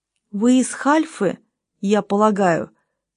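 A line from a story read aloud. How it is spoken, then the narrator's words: Plain question. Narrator (Russian): спросил его полковник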